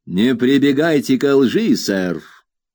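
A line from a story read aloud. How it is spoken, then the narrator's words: Angry shout. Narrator (Russian): крикнул он так злобно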